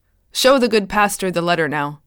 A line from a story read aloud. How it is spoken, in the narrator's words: After a moment's hesitation, Broadhead barked